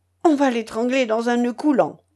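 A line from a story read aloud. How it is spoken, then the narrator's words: Exclaimed. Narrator (French): s'écria-t-elle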